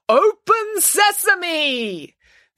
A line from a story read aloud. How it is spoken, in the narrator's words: Their leader called out the words